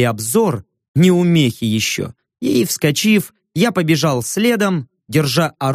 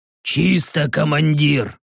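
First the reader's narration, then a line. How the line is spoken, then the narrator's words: Quiet report. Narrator (Russian): тихо доложил Рек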